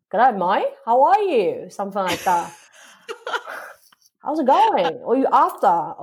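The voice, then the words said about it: Imitated Australian accent. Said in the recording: “You've really tried to take on the Australian accent there.”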